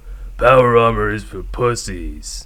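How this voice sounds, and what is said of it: Gruff action-hero Duke Nukem impression. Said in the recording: “my Duke Nukem impression”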